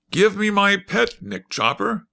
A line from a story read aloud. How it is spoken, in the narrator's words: Ozma was delighted and exclaimed eagerly